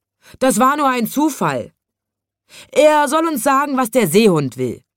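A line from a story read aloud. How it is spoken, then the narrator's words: Men shouting. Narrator (German): schrien die großen Männer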